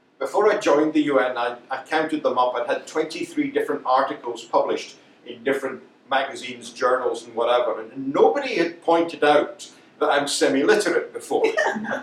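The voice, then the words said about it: Scottish accent. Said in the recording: “I speak with a Scottish accent”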